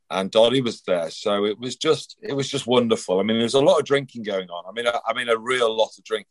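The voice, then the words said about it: Slightly hoarse voice. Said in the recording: “apologies if my voice is a bit hoarse”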